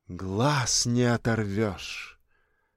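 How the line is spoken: Young woman's breathy exhale. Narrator (Russian): Молодая женщина выдохнула

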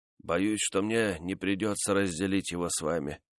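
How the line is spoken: Quiet. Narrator (Russian): тихо промолвил он

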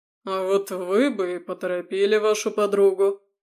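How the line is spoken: Low booming near the ear. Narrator (Russian): прогудел Валентин Павлович над моим ухом

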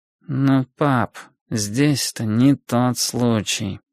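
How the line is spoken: Unbearable, otherworldly voice. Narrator (Russian): сказал Энди своим невыносимым, нездешним голосом

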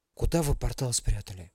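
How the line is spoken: Quiet question. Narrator (Russian): тихо спросил Ярослава Вениамин

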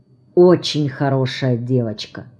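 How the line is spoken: Quiet warm approval. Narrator (Russian): От души одобряет меня дрыгалка и говорит негромко

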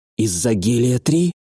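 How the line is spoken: Hoarse question. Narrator (Russian): хрипло спросила Джао, сглотнув

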